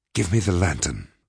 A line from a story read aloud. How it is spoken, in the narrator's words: whispered